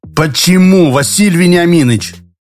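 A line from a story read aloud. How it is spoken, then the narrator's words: Indignant repetition. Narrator (Russian): возмущенно повторил Шорохов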